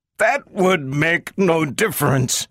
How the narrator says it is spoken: cried Herbie

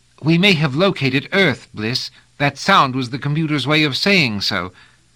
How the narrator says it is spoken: added eagerly

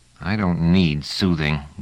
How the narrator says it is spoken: growled Trevise to Pellerat

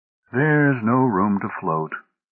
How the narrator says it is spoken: sighed Oldbury

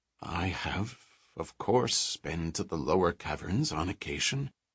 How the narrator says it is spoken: Odin muttered

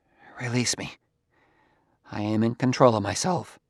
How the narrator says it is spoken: Gramianus said, in very little above a whisper

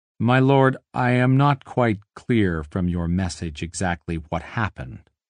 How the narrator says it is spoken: he said

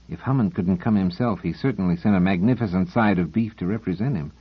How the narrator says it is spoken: In an aside to Doors, he muttered

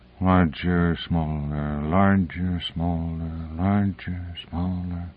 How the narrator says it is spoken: he found himself muttering soundlessly

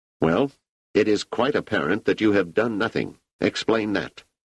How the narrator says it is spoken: The leader said sharply

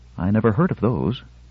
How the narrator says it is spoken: Valona said wistfully

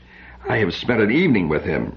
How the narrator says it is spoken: she said bitterly

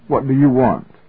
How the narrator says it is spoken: He said sharply

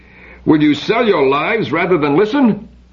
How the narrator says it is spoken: Biren yelled

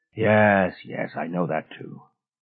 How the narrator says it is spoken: With a sigh, said

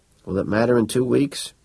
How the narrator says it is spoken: said Estes wearily

